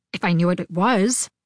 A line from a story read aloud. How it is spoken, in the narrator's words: he said